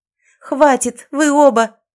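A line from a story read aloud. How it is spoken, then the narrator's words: Hoarse strained scream. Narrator (Russian): закричала я, срывая голос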